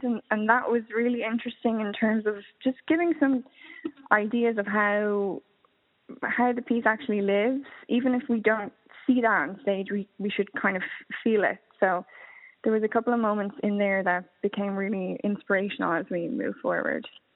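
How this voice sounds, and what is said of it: Speaks with a noticeable accent. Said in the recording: “your beautiful accent”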